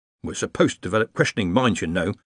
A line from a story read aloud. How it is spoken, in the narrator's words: someone muttered